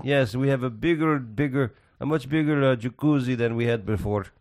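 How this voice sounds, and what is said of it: Put-on Italian accent. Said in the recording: “Was that your Italian accent?”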